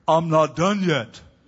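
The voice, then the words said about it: Imitates another person's voice. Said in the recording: “That was a really bad Billy Graham imitation”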